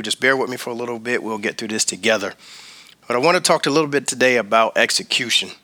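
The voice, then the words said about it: Hoarse voice. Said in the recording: “I sound a little hoarse today, got a little bit of a sore throat ... I sound a little different than I normally do”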